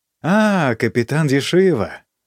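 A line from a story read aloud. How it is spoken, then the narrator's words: Surprised and glad. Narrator (Russian): сказал он, удивленный и радостно подняв брови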